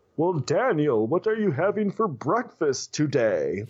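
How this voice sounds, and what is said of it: Over-the-top Mr. Tiger cartoon voice. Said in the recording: “the voice of the dad is like this over the top ... I guess I can do a good Mr. Tiger”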